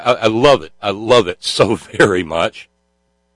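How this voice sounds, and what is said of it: Usual voice. Nothing is said of it.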